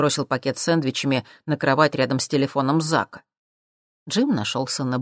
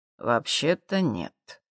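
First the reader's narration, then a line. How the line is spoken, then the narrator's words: Quiet. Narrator (Russian): тихо ответил Джим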